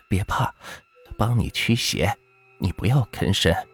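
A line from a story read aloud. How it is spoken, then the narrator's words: Soft. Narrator (Chinese): 胡母轻声说道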